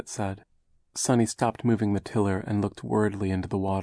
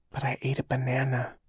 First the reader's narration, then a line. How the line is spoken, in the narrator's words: she whispered